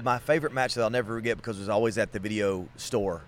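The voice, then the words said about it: Southern American accent. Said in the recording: “I'm from the South. All right. You can tell by my accent.”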